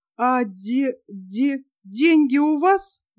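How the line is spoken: Stammering mutter. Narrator (Russian): запинаясь, пробормотал Тим

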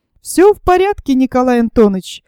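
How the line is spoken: Cheerful objection. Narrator (Russian): возразил я весело

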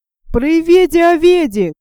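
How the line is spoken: Shouting crowd. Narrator (Russian): кричали одни

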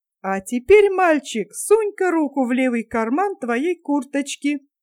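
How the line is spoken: Giggling speech. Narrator (Russian): Лысый хихикал и говорил

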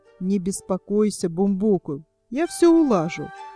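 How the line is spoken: Plain. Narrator (Russian): ответил старьевщик

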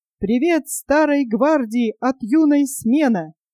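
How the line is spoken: Loud off-key children's singing. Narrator (Russian): громко и нестройно пели октябрята

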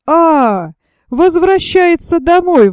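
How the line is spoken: Exclaimed. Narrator (Russian): воскликнул Зэп

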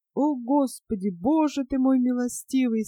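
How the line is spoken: Tearful moaning. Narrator (Russian): стонал мистер Паррик, вытирая слезы

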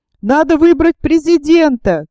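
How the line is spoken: Shouts from many sides. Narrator (Russian): крикнули с разных сторон

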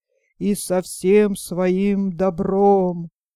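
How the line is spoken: Loud booming bass. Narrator (Russian): кучер пробасил во все горло

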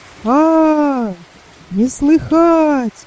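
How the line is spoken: Loud singsong. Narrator (Russian): ответил громко и нараспев Пантелей

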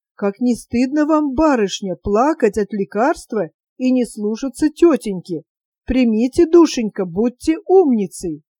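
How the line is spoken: Whispered. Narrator (Russian): добрая Катерина шептала ей

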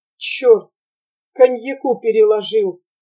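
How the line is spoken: Mumbling. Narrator (Russian): промямлил Прохор Петрович

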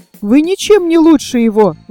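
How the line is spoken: Exclaiming. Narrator (Russian): воскликнула Снежинка

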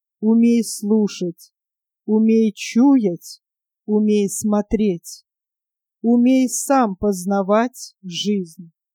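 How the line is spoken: Slow speech. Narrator (Russian): Старейший медленно проговорил

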